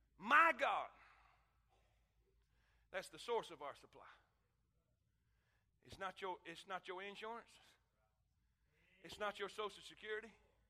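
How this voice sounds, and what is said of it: Strained, worn-out preaching voice. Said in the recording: “I'm losing my voice. I blowed it out in the first one too.”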